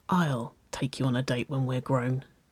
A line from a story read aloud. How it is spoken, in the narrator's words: she whispered back